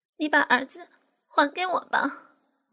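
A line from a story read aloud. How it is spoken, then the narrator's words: Weeping. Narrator (Chinese): 哭哭啼啼的说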